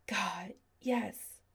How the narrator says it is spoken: he tried again

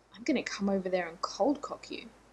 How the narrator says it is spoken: Shepard growled

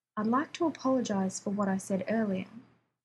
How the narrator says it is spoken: Rodney said evenly

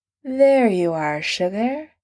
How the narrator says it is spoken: he says, pulling the words out in a hilarious drawl

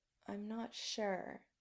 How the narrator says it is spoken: Adam admits softly

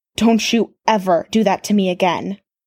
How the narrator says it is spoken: snarled

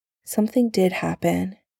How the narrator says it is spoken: Sam said quietly, once he was awake enough to speak

